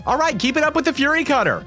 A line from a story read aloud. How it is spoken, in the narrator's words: shouts out